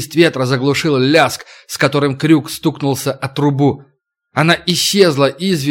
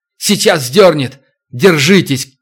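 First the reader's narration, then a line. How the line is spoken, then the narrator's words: Shouting. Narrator (Russian): крикнул Туран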